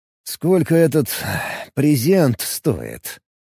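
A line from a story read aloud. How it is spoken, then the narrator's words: Doubtful sigh. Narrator (Russian): Вздохнул Алекс, не очень веря, что собеседница даст что-нибудь просто так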